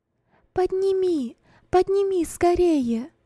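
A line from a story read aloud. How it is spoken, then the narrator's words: Female shout. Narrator (Russian): крикнула Роза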